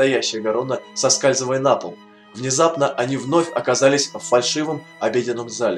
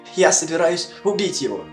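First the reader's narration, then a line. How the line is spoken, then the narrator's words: Trembling voice. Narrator (Russian): проговорила она дрожащим голосом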